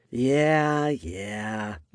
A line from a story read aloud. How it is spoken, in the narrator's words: Lifra sighed